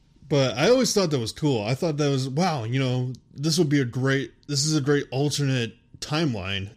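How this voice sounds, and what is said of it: Usual voice. Nothing is said of it.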